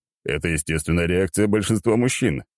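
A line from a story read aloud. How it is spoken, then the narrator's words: Chuckling. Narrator (Russian): хохотнул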